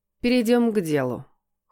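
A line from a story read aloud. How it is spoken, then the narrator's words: Cold woman's voice. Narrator (Russian): холодно произнесла женщина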